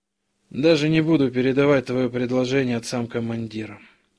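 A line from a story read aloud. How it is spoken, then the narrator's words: Tired, curt remark. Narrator (Russian): устало бросил Иваненко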